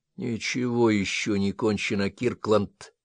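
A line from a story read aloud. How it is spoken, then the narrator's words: Very quiet whisper. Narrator (Russian): прошептал он так тихо, чтобы его услышал только Джек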